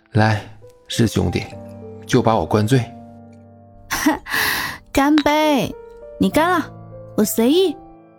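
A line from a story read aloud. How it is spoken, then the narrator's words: Helpless wry laugh. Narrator (Chinese): 小苏 无奈一笑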